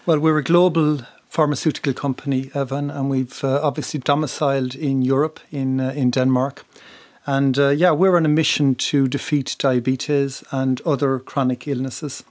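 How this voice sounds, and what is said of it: Irish accent, west of Ireland. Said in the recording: “people will hear from your accent that you originally, in fact, were from Republic of Ireland ... I'm from the west of Ireland, County yeah. Mayo.”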